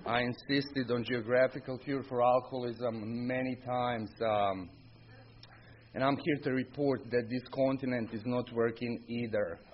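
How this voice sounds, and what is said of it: Non-local foreign accent. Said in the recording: “Obviously, hear my accent. I'm not from Pottstown area.”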